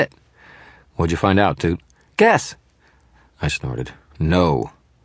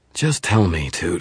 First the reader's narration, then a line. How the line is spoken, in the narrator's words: I sighed